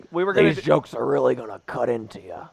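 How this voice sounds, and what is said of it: Freddy Krueger voice with Kennedy accent. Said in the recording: “Best impersonation you've done... I'm surprised it didn't sound like a Kennedy... It did sound like a Freddy Krueger as a Kennedy.”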